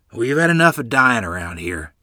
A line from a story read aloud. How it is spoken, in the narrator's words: Grandfather said gruffly